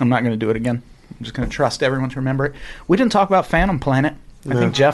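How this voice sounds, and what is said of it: Usual voice. Nothing is said of it.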